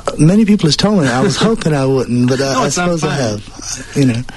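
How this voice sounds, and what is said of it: Picked-up English accent. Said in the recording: “you've picked up an English accent.”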